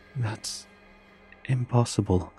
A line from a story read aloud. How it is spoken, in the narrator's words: I murmured